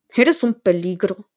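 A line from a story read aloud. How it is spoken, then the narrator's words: Growled. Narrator (Spanish): gruñó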